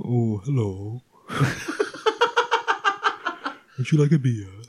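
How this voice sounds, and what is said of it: Low, soothing, bassy voice. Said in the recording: “they always say I've got a low voice... There's definitely a, like a low resonance to it... It's very soothing and bassy... It's not the Joanna Lumley I want... it's some way from Lumley”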